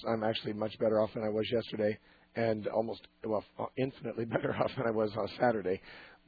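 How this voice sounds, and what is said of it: Hoarse, strained voice. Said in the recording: “My voice doesn't always sound like this. I'm recovering from laryngitis.”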